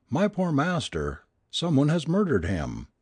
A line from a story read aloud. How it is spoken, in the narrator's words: cried he, sobbing